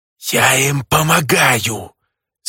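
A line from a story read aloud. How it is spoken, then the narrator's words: Furious hiss. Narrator (Russian): С не меньшей яростью прошипела тень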